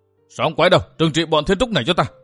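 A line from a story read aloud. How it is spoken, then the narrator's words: Sudden loud call. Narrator (Vietnamese): Bà ta chợt to tiếng gọi lớn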